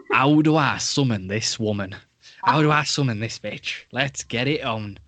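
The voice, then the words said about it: Put-on Yorkshire accent. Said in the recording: “my default accent is like a Yorkshire accent”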